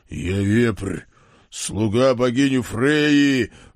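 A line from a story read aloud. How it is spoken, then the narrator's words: Furious roar. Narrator (Russian): взревел окончательно взбешенный сикач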